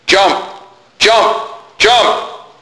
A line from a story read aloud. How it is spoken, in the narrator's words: yelled the people until they were hoarse